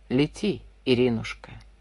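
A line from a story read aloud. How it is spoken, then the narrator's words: Quiet. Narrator (Russian): тихо сказал он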